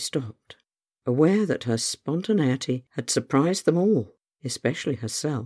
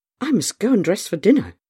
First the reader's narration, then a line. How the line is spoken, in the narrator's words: exclaimed